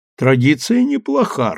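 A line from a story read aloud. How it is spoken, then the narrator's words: Laughing loudly. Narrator (Russian): расхохотался Гирин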